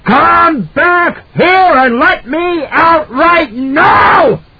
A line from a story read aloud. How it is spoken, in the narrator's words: Jack screamed